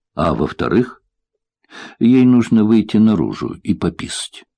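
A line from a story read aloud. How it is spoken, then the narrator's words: Relieved, grateful question. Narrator (Russian): Благодарный кошке за смелость, я облегченно вздохнул и спросил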